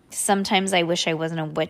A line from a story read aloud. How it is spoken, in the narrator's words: she said